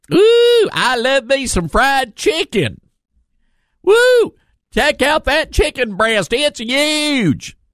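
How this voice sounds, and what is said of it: Fake American Southern accent. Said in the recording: “he's not out there with a fake southern accent.”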